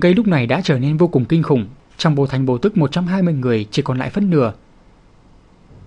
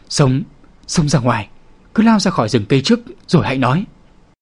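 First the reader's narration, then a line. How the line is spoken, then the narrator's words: Frightened, trembling voice. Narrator (Vietnamese): Trên trán tên đầu lĩnh mồ hôi chảy lạnh ròng ròng, trên mặt là một mảnh tái nhợt, run rẩy nói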